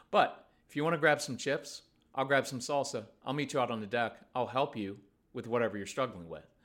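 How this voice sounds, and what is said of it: Calm, controlled, non-yelling tone. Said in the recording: “my tone says I'm in full control of myself and the situation... I'm not yelling.”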